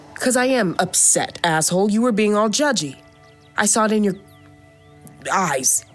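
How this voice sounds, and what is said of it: Upset, agitated voice. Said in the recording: “Why do you sound upset?”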